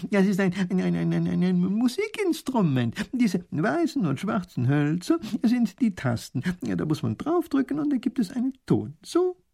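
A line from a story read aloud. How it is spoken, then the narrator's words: Laughing. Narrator (German): lacht der Professor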